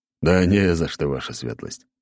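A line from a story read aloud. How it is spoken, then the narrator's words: Snorting reply. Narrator (Russian): хмыкнул в ответ Аршавин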